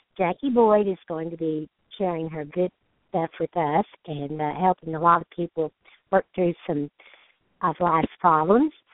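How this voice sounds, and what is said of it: Hoarse voice. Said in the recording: “I'm talking a little hoarse this evening because I've had a cold”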